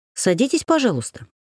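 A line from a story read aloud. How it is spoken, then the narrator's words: Plain. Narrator (Russian): сказала я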